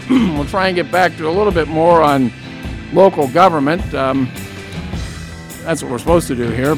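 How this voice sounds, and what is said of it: Strained, fading voice. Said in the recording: “I'm at the end of 2 hours and losing my voice now”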